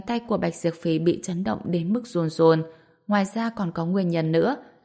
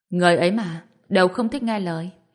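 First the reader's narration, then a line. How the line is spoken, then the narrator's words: Sighing. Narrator (Vietnamese): Vân Anh thở dài nói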